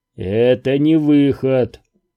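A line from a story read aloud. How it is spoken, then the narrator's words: Gloomy objection. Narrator (Russian): мрачно возразил Куай-Гон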